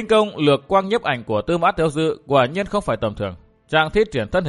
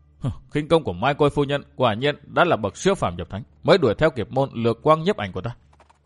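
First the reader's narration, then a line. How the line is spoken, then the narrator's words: Startled, alarmed muttering. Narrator (Vietnamese): Tư Mã Tiêu Dư giật mình kinh hãi, miệng lẩm bẩm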